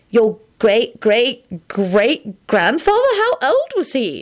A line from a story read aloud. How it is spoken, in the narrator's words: Elizabeth asked in a shocked voice